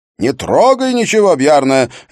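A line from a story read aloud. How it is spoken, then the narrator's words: Barked. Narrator (Russian): рявкнул голос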